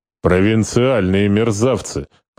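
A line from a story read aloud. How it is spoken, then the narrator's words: Grumbled reply. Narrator (Russian): проворчал тот в ответ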